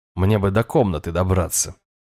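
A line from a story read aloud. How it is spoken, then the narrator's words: Snort. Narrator (Russian): хмыкнул я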